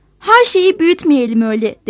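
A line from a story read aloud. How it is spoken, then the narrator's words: Plain. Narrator (Turkish): dedi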